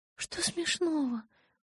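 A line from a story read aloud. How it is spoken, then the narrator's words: Muttered. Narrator (Russian): пробормотала она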